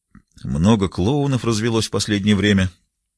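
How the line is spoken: Sullen muttering. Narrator (Russian): насупившись, пробормотал Райм

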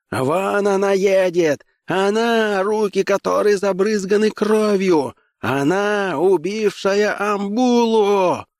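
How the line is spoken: Shouting accusingly. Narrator (Russian): он крикнул

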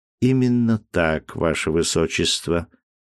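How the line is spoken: Calm priest's reply. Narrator (Russian): спокойно ответил священник

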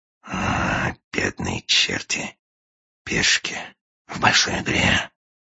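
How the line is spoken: Sighing whisper. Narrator (Russian): со вздохом прошептал агент

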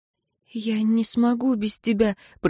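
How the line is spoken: Desperate whisper. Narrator (Russian): прошептала она с отчаянием

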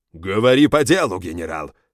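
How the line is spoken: Sudden bark. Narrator (Russian): рявкнул вдруг Фонтей

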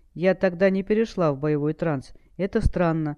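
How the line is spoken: Plain. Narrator (Russian): ответила она

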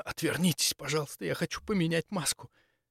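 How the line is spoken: Anguished whisper. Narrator (Russian): Прошептала надрывно

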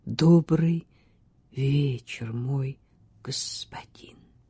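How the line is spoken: Quiet, passionate voice. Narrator (Russian): Тихим голосом, стараясь передать побольше страсти, она сказала

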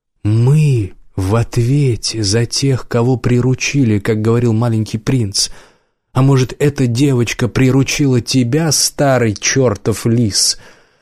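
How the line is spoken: Hoarse after throat-clearing. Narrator (Russian): Убер откашлялся, сказал хрипло

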